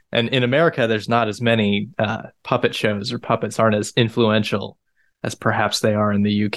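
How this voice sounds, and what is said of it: American accent. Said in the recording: “I'm an American, you can probably tell by my accent.”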